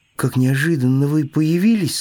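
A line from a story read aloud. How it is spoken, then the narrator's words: Plain. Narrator (Russian): сказал ежик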